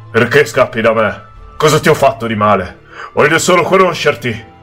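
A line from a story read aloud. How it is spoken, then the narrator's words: Desperate yell. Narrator (Italian): guardandomi disperato mi urlò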